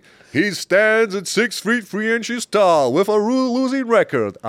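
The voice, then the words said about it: Fight announcer voice impression. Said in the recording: “That's Joe Martinez ... It was a good impression ... It was a little smoother”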